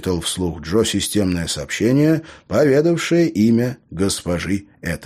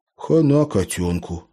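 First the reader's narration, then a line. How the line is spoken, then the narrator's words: Very sad sigh. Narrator (Russian): как-то очень печально вздохнул Лео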